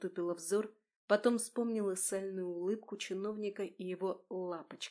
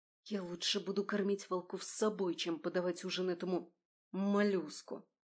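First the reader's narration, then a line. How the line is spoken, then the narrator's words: Hissing. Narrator (Russian): Прошипела я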